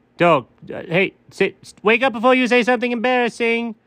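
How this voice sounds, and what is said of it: Yelling. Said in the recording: “why are you yelling at me?”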